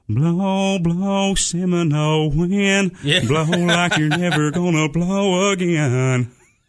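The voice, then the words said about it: Sings imitating a country singer. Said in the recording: “you do a pretty good John Anderson impersonation ... He's got his own unique sound”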